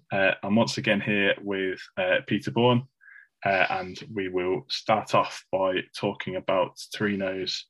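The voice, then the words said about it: Monotone Midlands English accent. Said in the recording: “monotone Midlands accent”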